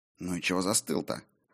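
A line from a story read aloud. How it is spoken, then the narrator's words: Hissed into ear, native tongue. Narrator (Russian): На родном языке прошипел Фредегар на ухо товарищу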